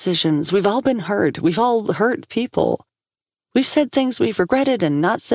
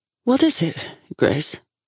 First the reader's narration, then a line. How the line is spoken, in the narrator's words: She asked, her voice pleasant